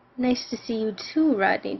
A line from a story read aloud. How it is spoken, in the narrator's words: croaked